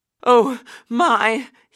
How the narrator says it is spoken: he gasped as he panted along

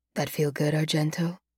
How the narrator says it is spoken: he whispers

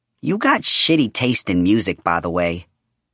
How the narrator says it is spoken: Julian told him, his tone matter-of-fact

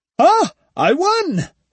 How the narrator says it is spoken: shouted Ushinosuke

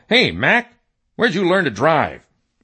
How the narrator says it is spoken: a few total strangers yell

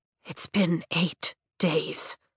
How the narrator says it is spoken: I croak, wincing

